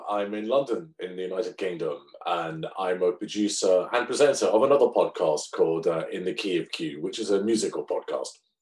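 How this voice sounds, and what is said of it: British accent. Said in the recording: “the listeners love the accent ... that's what's good about being British”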